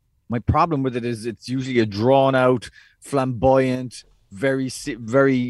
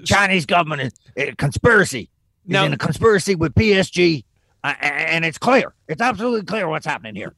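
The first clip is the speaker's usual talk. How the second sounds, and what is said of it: Imitates another person's voice. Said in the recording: “Who was that an impression of? ... Alex Jones. ... Usually you do a better one than that.”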